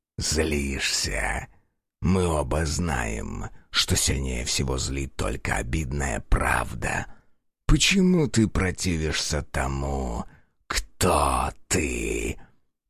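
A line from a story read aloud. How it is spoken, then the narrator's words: Hiss. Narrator (Russian): прошипел тиранит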